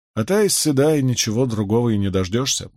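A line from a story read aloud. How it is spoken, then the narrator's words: Grumble. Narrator (Russian): буркнул Перин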